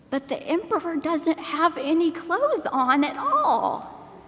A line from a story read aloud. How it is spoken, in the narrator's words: a little child exclaimed